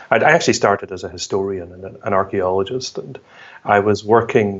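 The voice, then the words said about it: Scottish accent. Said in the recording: “I can obviously tell from your accent, that you're from Scotland”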